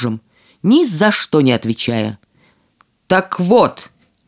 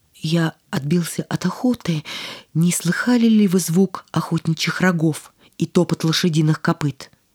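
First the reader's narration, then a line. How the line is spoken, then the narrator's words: Trembling, awestruck question. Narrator (Russian): Невинная кроткость и чистота поразили королевича, и он спросил дрогнувшим голосом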